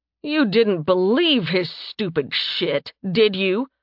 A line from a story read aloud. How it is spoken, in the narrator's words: Tarbin spat